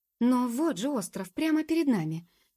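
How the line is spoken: Involuntary exclamation. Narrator (Russian): воскликнула, не удержавшись

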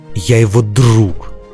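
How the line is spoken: Growl. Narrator (Russian): прорычал Дзирт

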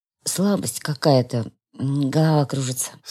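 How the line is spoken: Weak groan. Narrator (Russian): слабеющим голосом простонал я

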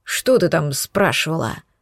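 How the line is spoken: Dragon's thoughtful, interested mutter. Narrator (Russian): Задумчиво пробормотал дракон, явно заинтересованный в моих ответах

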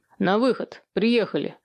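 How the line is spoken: Bark. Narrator (Russian): рявкнул главарь

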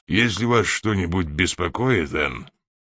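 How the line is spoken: Grumbling. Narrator (Russian): проворчал Фезертон

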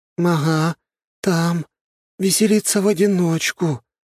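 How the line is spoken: Envious sigh. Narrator (Russian): завистливо вздохнула лиса

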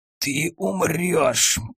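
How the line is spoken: Wounded man's hiss. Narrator (Russian): прошипел раненый

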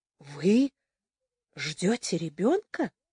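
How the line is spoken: Whispered question. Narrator (Russian): спросила она почему-то шепотом

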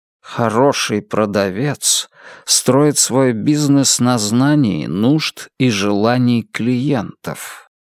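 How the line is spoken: Quiet, hypnotic voice. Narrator (Russian): сказал мистер Гонт своим тихим, гипнотизирующим голосом

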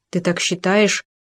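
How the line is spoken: Uncertain question. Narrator (Russian): неуверенно спросил Шмель

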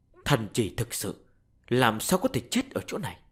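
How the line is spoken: Grave muttering. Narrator (Vietnamese): Sắc mặt của hắn nghiêm trọng, lẩm bẩm nói

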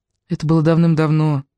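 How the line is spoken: Soft reply. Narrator (Russian): мягко отозвалась Рошель

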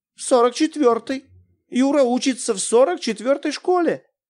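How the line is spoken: Confused. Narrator (Russian): растерянно сказала она

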